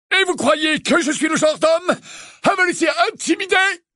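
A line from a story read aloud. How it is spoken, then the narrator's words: Uncle barking. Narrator (French): aboya l'oncle Vernon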